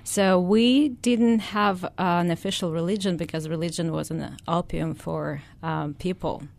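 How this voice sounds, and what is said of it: Foreign-accented English. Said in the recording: “they probably picked up that you have an accent.”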